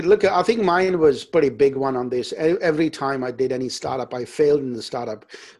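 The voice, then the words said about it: Non-native English accent. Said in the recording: “accent is not good ... you sound a bit different”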